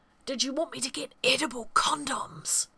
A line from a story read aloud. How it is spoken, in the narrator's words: Walter hissed